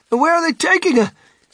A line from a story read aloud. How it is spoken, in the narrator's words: shrieked Mrs